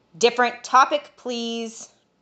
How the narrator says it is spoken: Torkin shouted

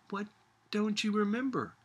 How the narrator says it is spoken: asked Sophia anxiously

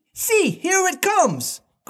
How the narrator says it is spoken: cried Curly

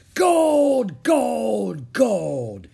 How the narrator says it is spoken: he cried

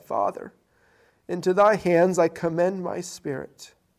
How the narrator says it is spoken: Jesus had cried with a loud voice, he said

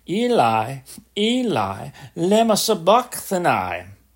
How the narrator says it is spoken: Jesus cried with a loud voice, saying

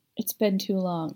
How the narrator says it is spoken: said quietly

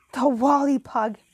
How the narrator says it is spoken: I exclaimed

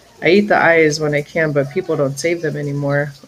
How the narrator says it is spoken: Oogruk said

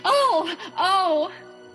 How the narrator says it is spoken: Della cried

